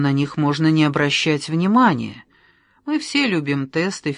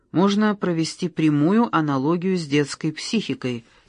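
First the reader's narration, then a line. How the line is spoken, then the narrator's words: Plain. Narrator (Russian): сказал Костя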